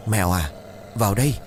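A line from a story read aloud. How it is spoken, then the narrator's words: Soft call. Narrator (Vietnamese): Ông Thần bấy giờ khẽ gọi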